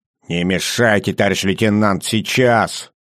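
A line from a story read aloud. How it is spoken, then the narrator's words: Soldier snapping back. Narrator (Russian): огрызнулся боец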